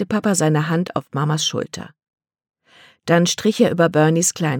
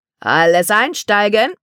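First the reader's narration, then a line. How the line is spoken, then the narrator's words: Conductor calling. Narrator (German): Als der Schaffner rief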